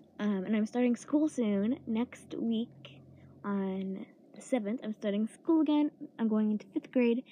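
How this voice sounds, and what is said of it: Cracky, sore-throated voice. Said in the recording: “I have a sore throat, so sorry if I sound very like cracky. My voice sounds cracky.”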